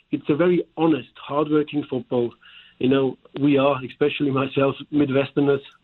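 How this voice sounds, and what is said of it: German-accented English. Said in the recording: “my German accent”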